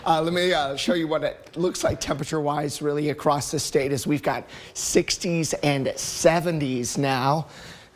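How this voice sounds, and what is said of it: Strained, struggling voice. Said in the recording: “my voice is struggling a little bit today”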